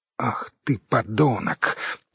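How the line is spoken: Furious hiss. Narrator (Russian): прошипела разъяренная Оксана

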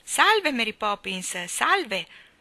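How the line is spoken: Chorus of voices exclaiming. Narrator (Italian): esclamò il coro delle voci dalla pista

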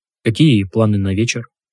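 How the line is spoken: Plain. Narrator (Russian): спросил Громов

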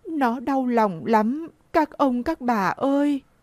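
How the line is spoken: Tearful old woman pleading. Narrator (Vietnamese): bà mếu máo và nói

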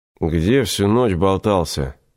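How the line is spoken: Lazy grumble. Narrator (Russian): лениво проворчал Игорю Алекс

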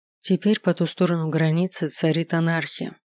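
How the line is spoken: Gloomy pronouncement. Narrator (Russian): мрачно изрекла Тиара

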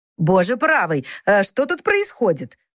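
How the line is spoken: Elderly woman exclaiming. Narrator (Russian): воскликнула пожилая дама

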